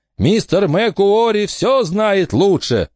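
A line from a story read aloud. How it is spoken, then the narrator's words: Shouted in chorus. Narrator (Russian): хором закричали остальные ученые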